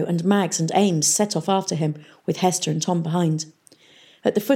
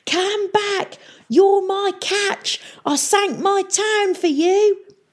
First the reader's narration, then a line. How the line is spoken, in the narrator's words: they heard him screaming